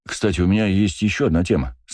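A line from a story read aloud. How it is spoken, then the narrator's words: Plain. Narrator (Russian): сказал я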